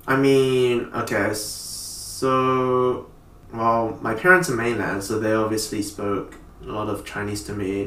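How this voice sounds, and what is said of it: Asian accent. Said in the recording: “you still have a Asian accent when you speak”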